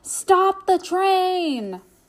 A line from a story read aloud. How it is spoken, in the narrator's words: Steamer yelled out